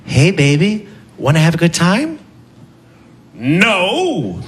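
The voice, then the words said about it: Comic character voices, hooker and superhero. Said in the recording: “This is my impression of a superhero being propositioned by a hooker”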